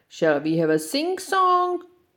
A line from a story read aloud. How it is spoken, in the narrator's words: roared the little lion